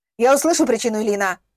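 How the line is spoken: Barking. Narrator (Russian): рявкнул полковник

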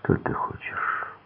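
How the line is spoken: Quiet question. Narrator (Russian): тихо спросил

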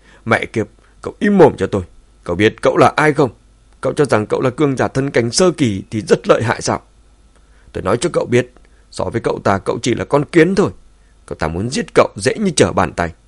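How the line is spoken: Roaring. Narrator (Vietnamese): Diệp Hoàng gầm lên

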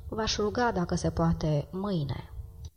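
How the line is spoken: Pained, sighing refusal. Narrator (Romanian): El refuză cu o voce care ei i se păru un oftat de durere

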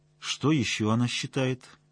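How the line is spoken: Dry question. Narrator (Russian): сухо спросил Соловьев

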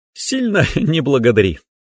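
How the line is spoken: Giggling. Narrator (Russian): хихикнула

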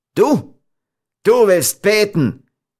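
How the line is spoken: Devilishly mocking shout. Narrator (German): rief Giovanni noch immer mit dem gleichen teuflischen Hohn

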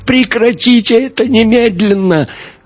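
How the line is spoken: Howling. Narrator (Russian): Мария взвыла

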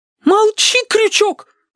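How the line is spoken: Shriek, young woman. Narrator (Russian): взвизгнула девица

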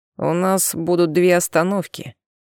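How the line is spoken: Muttering. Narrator (Russian): наконец пробормотал он

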